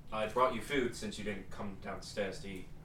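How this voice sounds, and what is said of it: Character voice with British accent. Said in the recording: “He's British now. ... had that accent ... sort of. I'm really bad with the voices lately”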